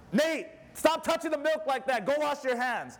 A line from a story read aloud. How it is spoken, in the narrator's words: Mary yells at him